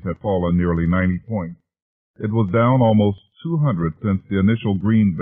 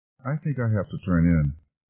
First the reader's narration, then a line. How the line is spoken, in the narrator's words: Caitlin finally said in a half-asleep whisper